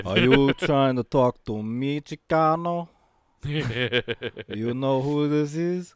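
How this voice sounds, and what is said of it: Slow Cuban-accented wrestler impression. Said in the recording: “Razor Ramon, but it's too slow ... talking like a Cuban”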